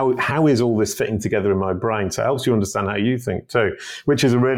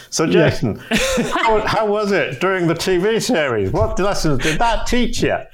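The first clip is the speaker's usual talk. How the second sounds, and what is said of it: Put-on American accent. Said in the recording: “I'll do your voice. ... That's my American accent.”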